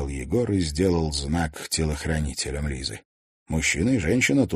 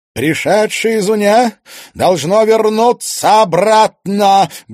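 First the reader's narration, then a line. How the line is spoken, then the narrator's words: Witch speaking loudly. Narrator (Russian): громко произнесла колдунья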